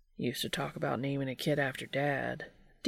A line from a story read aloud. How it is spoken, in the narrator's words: Dean muttered